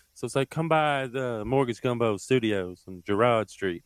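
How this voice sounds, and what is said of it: Throaty falsetto with Southern drawl. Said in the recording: “do the Luke Bryan voice ... it's Kermit the Frog with a Georgia accent ... that falsetto ... In the back of your throat kind of ... you give Kermit the Frog a Southern accent”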